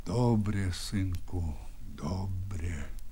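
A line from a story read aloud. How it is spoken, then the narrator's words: Quiet, old man. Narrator (Russian): сказал тихо Бульба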